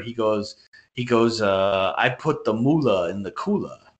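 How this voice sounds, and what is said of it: Put-on New York accent. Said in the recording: “total, like, you know, New York accent.”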